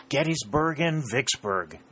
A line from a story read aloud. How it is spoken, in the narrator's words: exclaimed Dick